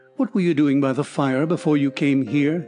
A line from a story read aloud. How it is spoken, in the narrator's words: he asked, pausing in a casual tone